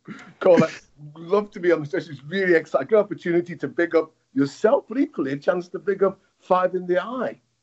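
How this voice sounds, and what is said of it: Strong Liverpool accent. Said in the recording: “got the crazy accent”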